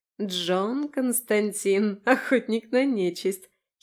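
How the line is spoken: Giggling. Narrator (Russian): хихикнула

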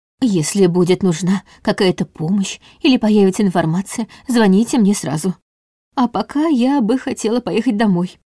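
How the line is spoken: Timid. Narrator (Russian): робко сказала Лидия

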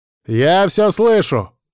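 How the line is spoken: Barking. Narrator (Russian): рявкнул я

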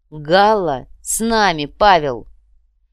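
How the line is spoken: Loud, impressive, strained. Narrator (Russian): рыцарь скривился и громко внушительно произнес

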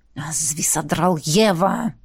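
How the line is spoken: Hissed again. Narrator (Russian): Снова зашипел он

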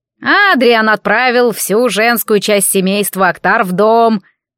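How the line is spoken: Displeased grumbling. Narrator (Russian): недовольный тем, что его вытащили из тепла, проворчал Гаргул

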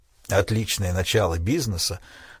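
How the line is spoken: Smirking mutter. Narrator (Russian): с усмешкой пробормотал Крейг

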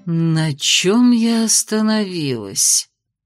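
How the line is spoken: Thoughtful drawl. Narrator (Russian): задумчиво протянула мисс Вайт

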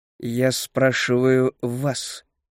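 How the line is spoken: Through gritted teeth. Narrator (Russian): процедил Азаревич

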